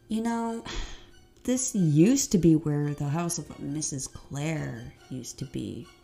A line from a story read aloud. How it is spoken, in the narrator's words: Lindsay said in a spooky voice, trying to get both Hunter and Holleen freaked out